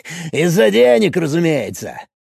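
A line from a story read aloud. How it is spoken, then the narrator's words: Laughing. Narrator (Russian): засмеялся юрист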